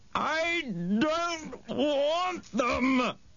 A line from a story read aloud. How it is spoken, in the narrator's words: she yelled